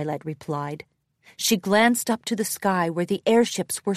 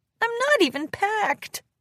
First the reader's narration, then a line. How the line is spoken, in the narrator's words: Rarity whimpered